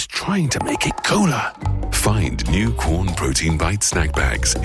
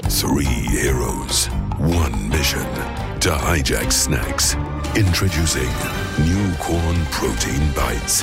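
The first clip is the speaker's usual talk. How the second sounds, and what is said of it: Serious dramatic announcer voice. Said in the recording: “doing the serious voice”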